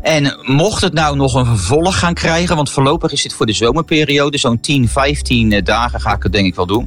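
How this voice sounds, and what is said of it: Rotterdam Dutch accent. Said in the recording (Dutch): “ze hoorden wel aan mij dat ik mijn eigen inhield met mijn accent ... mijn Rotterdamse inslag”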